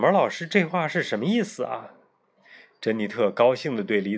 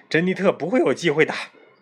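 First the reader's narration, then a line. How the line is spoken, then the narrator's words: Laughing. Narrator (Chinese): 卷毛老师笑着说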